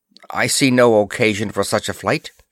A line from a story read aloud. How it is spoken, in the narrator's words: she said curtly